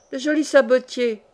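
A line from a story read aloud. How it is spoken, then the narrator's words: Exclaimed. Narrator (French): s'écria-t-on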